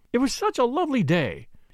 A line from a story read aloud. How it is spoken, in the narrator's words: exclaimed